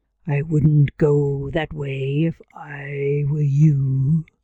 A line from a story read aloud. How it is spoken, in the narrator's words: a voice growled from the shadows